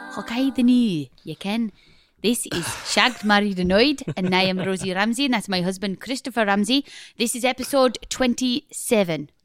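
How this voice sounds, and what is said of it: Bad put-on accent, vaguely German-Russian. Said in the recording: “Stop that accent. It's horrible. ... it's going weirdly, sort of slightly a bit German, a bit Russian, creeping in there.”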